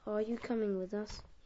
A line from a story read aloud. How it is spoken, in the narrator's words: he asked